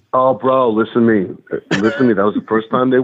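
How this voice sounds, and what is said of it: Usual voice. Nothing is said of it.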